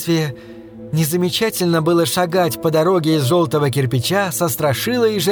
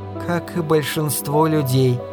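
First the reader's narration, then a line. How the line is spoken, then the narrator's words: Sleepy mumble. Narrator (Russian): пробормотала она сонным голосом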